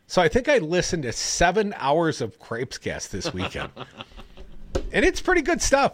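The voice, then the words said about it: Strong Wisconsin accent. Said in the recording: “I can tell your Wisconsin accent is really peaking today.”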